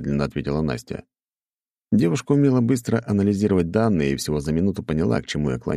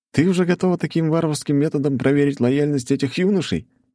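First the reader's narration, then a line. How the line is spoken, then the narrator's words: Cheerful, teasing. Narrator (Russian): весело подмигнул я Насте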